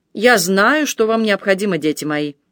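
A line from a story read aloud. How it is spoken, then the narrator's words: More insistent repetition. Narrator (Russian): отец Теобальд все еще более настойчивым тоном повторил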